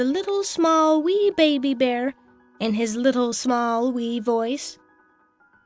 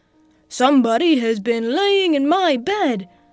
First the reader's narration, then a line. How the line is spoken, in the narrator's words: said the great, huge Papa Bear in his great, rough, gruff voice